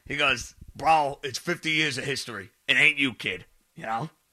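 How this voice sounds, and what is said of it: Poor imitation of another person's voice. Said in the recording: “that was a terrible jail impression.”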